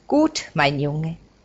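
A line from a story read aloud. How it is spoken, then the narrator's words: Plain. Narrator (German): sagt die Frau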